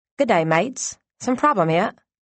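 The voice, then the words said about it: Put-on Australian accent. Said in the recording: “the Aussie accent.”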